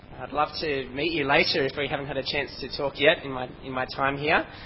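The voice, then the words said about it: Strong Australian accent. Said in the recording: “my accent, my strong Aussie accent”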